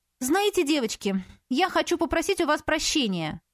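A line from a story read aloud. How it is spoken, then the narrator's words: Irritated. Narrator (Russian): она также раздраженно продолжила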